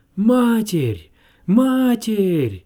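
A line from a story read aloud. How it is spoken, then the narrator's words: Group shouting. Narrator (Russian): кричали они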